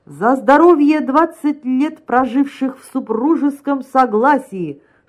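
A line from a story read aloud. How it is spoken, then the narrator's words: Joking shout. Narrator (Russian): шутливо крикнул Горянин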